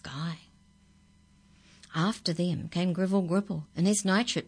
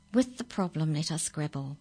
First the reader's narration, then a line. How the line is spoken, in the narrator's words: murmured kindly Canon Dapple